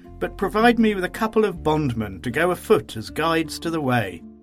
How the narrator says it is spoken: said with a laugh

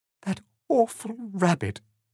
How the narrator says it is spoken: she sobbed

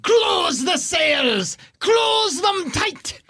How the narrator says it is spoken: Captain Belbarum screams up

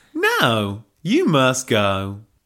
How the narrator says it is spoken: drawled Helga, with typical American directness

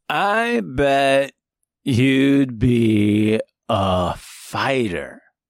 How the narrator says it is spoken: Miles said, the stench of alcohol heavy on his breath, and his words slurred and running together

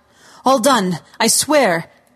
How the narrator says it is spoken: one of the men shouted

